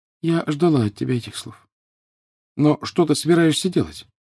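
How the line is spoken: Sad. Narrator (Russian): Гермиона лишь печально сказала

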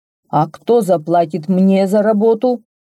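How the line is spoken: Menacing question. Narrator (Russian): грозно вопросил Басим

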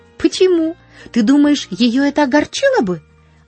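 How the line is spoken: Worried exclamation. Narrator (Russian): воскликнула Полианна с беспокойством

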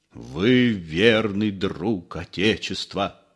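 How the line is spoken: Solemn. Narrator (Russian): торжественно сказал Остап

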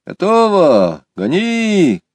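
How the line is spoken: Shouting. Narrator (Russian): крикнул сидевший в лодке

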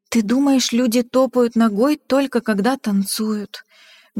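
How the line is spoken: Sad. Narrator (Russian): грустно сказала мама

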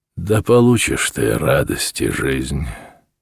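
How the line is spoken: Somewhat solemn. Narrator (Russian): Хаджи Мурат несколько торжественно сказал

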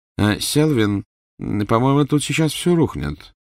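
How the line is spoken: Calm echoing remark. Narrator (Russian): спокойно заметил другой голос, эхом отдавшись от искореженных ступеней

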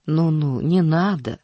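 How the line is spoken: Strained, forced. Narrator (Russian): выдавила из себя тетка

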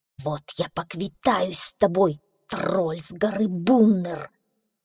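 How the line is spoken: Hissing through teeth. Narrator (Russian): прошипел он сквозь зубы

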